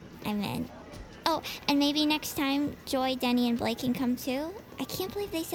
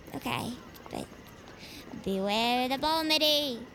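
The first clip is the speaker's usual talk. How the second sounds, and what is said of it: Poorly done put-on accent. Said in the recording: “You're bad at accents.”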